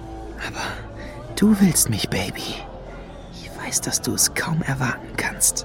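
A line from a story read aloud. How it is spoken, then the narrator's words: Seductive whisper. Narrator (German): flüsterte er Lady Luna zu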